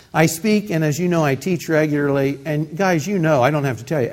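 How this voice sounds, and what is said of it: Nasal Midwestern twang. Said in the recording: “I've got a nasal voice to start with ... the Midwest nasal twang”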